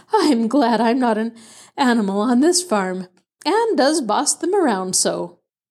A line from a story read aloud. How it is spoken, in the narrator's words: Aunt Abigail, panting, said between laughing and puffing